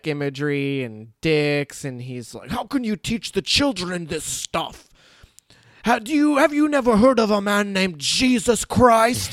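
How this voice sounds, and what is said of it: Put-on Scottish accent. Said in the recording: “Scottish accent. 10 out of 10”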